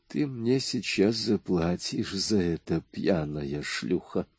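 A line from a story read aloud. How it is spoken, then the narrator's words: Man speaking through clenched teeth. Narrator (Russian): сказал сквозь зубы блондин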